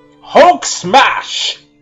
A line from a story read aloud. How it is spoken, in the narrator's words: roared the Hulk as loud as he could